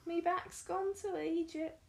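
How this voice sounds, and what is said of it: Old lady character voice. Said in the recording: “my iconic old lady impression”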